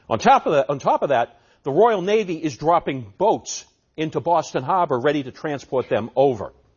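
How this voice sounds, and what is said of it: Put-on Massachusetts accent. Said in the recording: “How's my Massachusetts accent, by the way? ... My accent is going to haunt you for years to come.”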